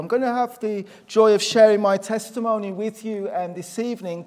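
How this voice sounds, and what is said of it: Black Country Midlands English accent. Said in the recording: “my accent's not Northern Irish. It's obviously I'm from the Black Country, which is sort of an area in the Midlands”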